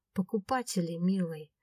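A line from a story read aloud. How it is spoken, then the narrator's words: Gentle woman's reply. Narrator (Russian): ласково ответила женщина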